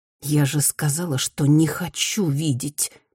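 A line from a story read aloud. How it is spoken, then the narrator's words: Through gritted teeth. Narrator (Russian): процедила Рита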